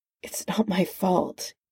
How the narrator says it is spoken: mumbled

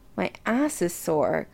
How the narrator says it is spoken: Chris grumbled

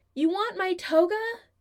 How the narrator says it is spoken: He yells towards the door

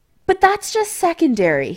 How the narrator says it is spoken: he added hastily

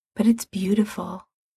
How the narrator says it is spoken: murmurs

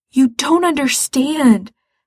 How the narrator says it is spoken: Gerard says desperately

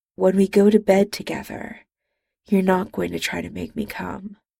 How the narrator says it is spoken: He murmured

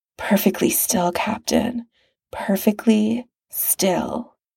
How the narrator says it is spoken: he murmurs

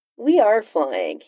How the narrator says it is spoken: he said in an innocent voice

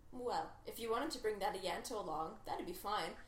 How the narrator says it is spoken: Donna said quickly

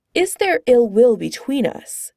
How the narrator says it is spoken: Thor asks Clint

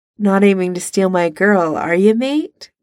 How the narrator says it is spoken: Neville chuckles

